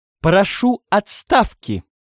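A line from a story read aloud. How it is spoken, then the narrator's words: Ringing metallic voice. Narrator (Russian): звонким металлическим голосом сказал вошедший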